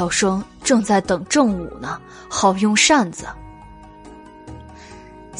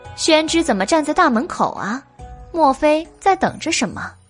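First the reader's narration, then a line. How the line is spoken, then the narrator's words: Laughing. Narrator (Chinese): 白姬笑道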